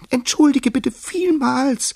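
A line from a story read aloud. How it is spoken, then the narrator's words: Mouse squeaking. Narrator (German): piepste die Maus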